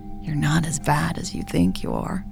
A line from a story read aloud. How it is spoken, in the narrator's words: Jade said huskily